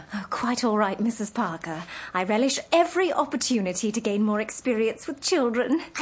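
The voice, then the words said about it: English accent. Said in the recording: “I love your accent. Are you from England? ... I thought it sounded English.”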